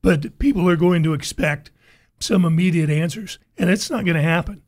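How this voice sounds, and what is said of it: Hoarse, cracking voice. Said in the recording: “excuse my voice, it's cracking up today”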